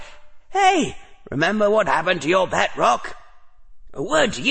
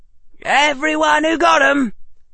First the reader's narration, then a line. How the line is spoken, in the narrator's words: Harry said loudly